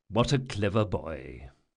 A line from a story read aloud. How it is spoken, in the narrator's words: muttered Chains